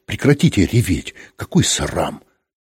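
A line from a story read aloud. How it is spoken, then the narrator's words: Menacing. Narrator (Russian): грозно сказал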